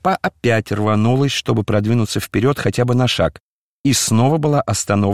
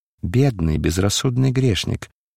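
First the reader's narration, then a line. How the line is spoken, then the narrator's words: Gentle, affectionate. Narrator (Russian): сказал ласково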